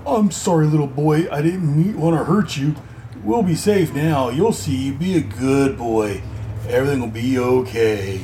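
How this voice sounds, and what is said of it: Creepy character voice. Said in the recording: “I'm still using that creepy voice because Wes is a very creepy guy”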